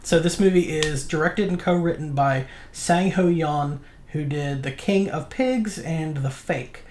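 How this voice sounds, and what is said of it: American accent pronouncing Korean names. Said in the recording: “Just giggle at how um, awful our American accent is.”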